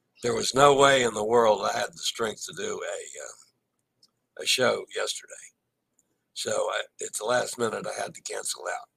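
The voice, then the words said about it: Hoarse, nearly lost voice. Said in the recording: “You can hear my voice is gone.”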